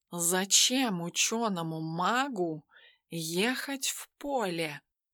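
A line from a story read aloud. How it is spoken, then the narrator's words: Thoughtful drawl. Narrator (Russian): задумчиво протянул Тимофей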